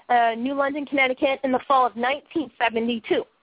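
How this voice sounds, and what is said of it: Boston accent. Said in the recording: “here I go with my Boston accent.”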